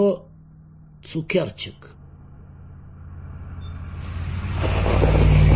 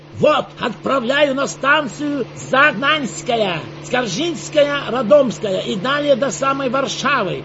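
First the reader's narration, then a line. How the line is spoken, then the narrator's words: Loud, over engine roar. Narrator (Russian): Павлов говорил громко, чтобы заглушить рев мощного четырехцилиндрового мотора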